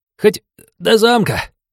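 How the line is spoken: Selfless whine, young man. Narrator (Russian): самоотверженно проскулил парень

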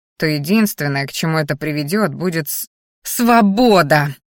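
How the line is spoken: Growled, interrupting. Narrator (Russian): рыкнула Мелисса, перебивая

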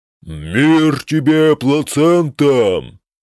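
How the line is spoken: Dwarf roaring. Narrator (Russian): проревел рыжий карлик

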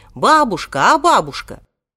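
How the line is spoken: Shout. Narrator (Russian): он тут же крикнул

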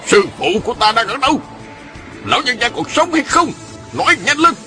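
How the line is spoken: Barked question. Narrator (Vietnamese): quát hỏi

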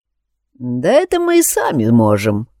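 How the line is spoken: Wry snort. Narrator (Russian): хмыкнул я

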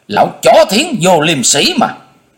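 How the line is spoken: Shouting. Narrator (Vietnamese): y hét trống lên

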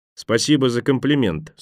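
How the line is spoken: Dry reply. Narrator (Russian): сухо отозвался Джани

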